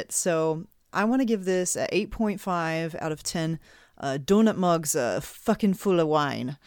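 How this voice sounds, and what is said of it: Poor, unidentifiable put-on accent. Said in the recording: “don't know what that accent was, but uh, whatever. ... wasn't Irish, that's for uh, sure. No, that's terrible, terrible.”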